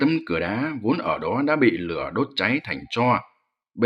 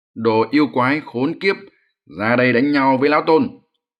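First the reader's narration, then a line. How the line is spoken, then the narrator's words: Loud calling. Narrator (Vietnamese): Hành giả lớn tiếng gọi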